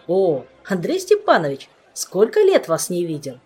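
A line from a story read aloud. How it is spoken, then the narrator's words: Joyful exclamation. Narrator (Russian): Радостно возгласил он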